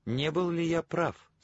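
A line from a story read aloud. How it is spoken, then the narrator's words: Triumphant question. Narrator (Russian): спросил я торжествующим тоном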